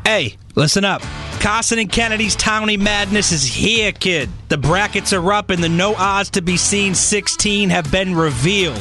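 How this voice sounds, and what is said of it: Exaggerated Boston accent. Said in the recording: “Boston's best accent”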